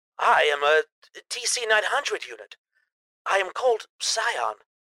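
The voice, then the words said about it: Robot character voice with accent. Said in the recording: “I like your accent.”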